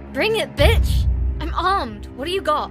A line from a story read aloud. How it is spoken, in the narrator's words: yelling